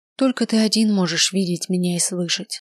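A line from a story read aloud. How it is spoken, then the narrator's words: Sighing. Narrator (Russian): вздохнула я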